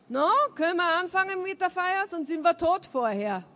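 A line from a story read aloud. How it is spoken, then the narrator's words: Cheerful shout. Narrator (German): fröhlich rief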